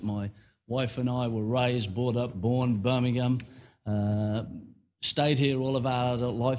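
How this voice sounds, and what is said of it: Birmingham accent. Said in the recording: “Many of you will detect the Birmingham accent.”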